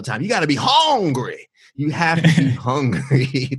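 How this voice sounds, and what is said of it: Les Brown impression. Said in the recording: “my Les Brown impression”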